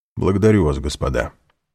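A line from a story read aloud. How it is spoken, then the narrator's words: Dry reply. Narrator (Russian): сухо ответил Альбер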